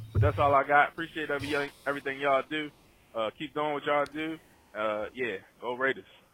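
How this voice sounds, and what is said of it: Maryland Baltimore accent. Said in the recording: “That accent, that Maryland, Baltimore accent, ... You cannot miss it. You say the word blue or YouTube, you can definitely hear the accent.”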